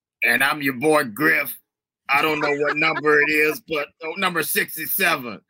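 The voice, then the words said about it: Imitates another person's voice. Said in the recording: “That's not a bad Griff impersonation”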